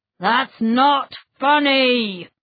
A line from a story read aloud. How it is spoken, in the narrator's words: growled the teacher